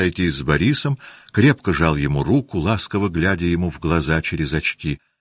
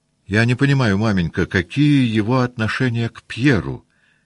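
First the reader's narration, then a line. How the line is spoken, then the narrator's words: Plain question. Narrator (Russian): спросил сын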